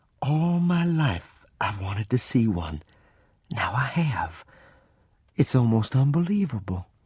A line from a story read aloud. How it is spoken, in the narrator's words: In an awed voice, she said